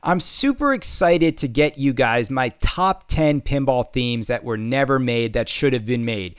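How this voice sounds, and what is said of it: Sick, unwell-sounding voice. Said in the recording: “I'm still sick. I'm still not back. You can hear it in my voice. I'm still not 100%.”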